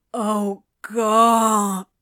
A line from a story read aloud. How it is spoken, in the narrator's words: Crowley moaned